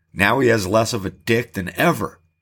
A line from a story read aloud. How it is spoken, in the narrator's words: Jace laughed